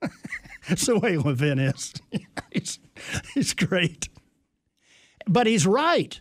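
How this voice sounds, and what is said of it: Usual voice. Nothing is said of it.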